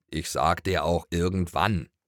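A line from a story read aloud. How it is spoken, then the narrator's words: Grunt. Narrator (German): grunzte Schoko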